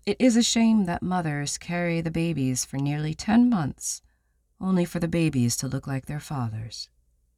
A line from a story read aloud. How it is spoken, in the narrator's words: She'd smile sweetly, and say